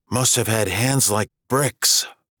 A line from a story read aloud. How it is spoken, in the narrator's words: she whispered, more to herself than Tom